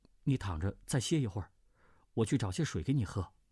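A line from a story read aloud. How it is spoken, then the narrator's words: Gentle coaxing. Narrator (Chinese): 段誉柔声劝道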